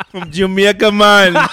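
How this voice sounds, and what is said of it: Put-on Jamaican accent. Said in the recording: “There you go with a Jamaican accent again.”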